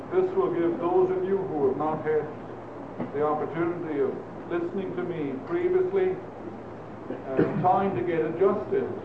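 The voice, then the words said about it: Speaks with a noticeable accent. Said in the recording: “I hope my accent will not bother you. I've gotten used to it.”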